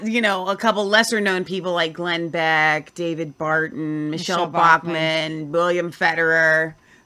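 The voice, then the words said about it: Sarcastic tone. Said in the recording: “That's a joke. That's me being sarcastic.”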